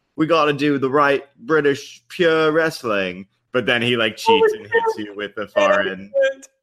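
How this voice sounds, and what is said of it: Put-on British accent. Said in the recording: “That accent was amazing. ... I've never been to England, so I can't do it so good.”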